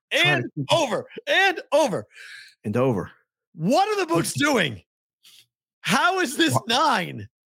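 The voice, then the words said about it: Yelling. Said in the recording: “Why are you yelling”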